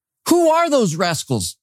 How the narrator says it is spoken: he shouted

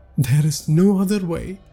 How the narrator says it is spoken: Vipul said tearfully

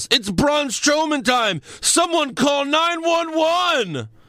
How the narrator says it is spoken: according to Michael Cole, he yells

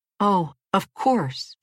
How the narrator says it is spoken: she cried

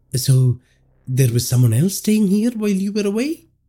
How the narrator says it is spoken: Rishabh asked hesitantly

